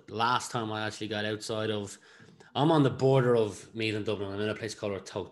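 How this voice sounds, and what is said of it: Irish accent, sounds like Dublin. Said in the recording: “by my accent, you might think I'm in Dublin”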